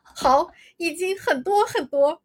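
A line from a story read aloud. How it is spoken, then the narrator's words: Smiling. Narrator (Chinese): 萧峰微笑道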